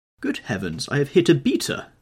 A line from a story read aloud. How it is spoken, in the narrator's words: exclaimed Sir Geoffrey